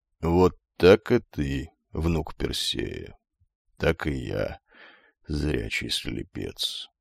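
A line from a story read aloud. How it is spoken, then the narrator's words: Quiet, old man. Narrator (Russian): тихо бросил старик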